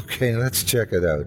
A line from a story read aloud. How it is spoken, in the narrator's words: I said with a giggle